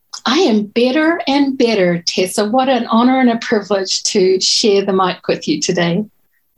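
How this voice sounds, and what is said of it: New Zealand accent. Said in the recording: “originally from New Zealand with her beautiful accent”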